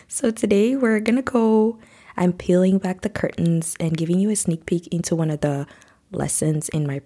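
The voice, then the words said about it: Deep-toned voice from a cold. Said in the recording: “I'm sure you can tell from my voice, I sound a little bit deep toned today. And that's because I've been struggling with a cold and a cough for a few weeks now.”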